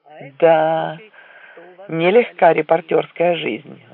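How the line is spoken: Sighing. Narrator (Russian): вздохнул Флетч

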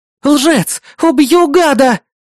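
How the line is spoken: Frenzied screaming. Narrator (Russian): кричала она, неистово

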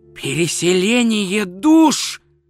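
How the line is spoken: Excited exclamation. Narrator (Russian): возбужденно воскликнул он

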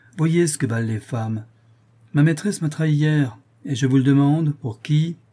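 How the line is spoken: Young man's wild exclamation. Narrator (French): s'écria un jeune fou de 20 ans

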